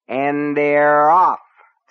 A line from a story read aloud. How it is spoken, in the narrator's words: A voice bellowed